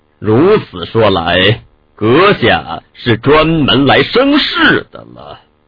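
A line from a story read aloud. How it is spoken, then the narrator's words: Deep, grave. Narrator (Chinese): 慕田…沉声道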